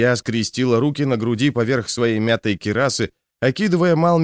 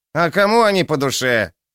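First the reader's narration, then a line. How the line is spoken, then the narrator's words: Snorting. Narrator (Russian): Гуннар хмыкнул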